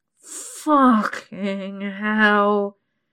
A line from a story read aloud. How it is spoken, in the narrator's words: he groans through gritted teeth as my cunt pulses tight and urgent round his dick